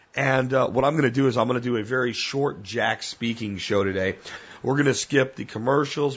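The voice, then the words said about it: Hoarse, rough sick-sounding voice. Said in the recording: “my voice is hammered, man. It is bad.”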